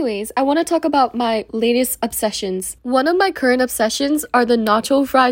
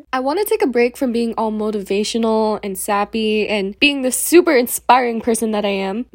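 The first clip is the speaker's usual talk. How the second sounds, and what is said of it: Sarcastic tone. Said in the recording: “That was sarcasm.”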